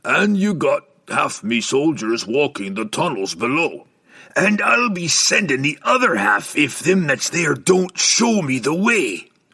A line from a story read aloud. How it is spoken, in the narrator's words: Brunner roared